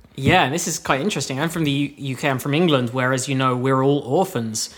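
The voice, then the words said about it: Non-American, English accent. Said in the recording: “if you haven't told by his accent, is not from America”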